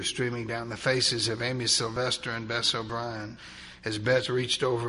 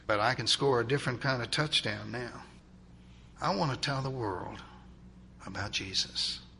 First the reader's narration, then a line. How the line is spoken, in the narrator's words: he whispered